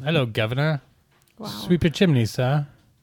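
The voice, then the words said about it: Put-on British accent. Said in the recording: “I'm really good at British. ... Let me hear your British. ... That's pretty good, though.”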